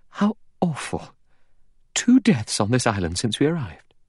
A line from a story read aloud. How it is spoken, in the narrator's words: Vera exclaimed